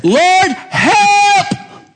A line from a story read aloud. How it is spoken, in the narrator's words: She's screaming